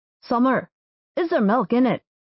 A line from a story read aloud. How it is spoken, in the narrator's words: Rory asked